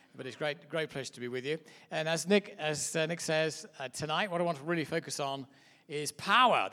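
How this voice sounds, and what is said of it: English accent. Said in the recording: “As you can hear by my accent, I'm obviously from a little place called Mud Island, which is England”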